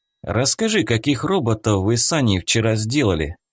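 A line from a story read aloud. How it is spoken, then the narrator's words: Plain question. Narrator (Russian): спросил я Софию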